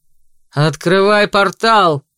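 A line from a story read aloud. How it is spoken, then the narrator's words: Barked loudly. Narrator (Russian): гаркнул Серж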